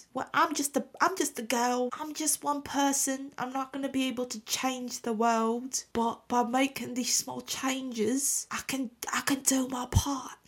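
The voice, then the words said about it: Put-on British English accent. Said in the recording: “that English accent is ... Isn't my English accent, like, really good right now? ... It starts crumbling ... the British accent's been really sticking”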